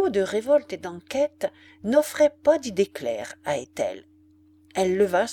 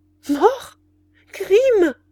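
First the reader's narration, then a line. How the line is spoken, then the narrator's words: Child's distressed exclamation. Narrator (French): s'écria la pauvre enfant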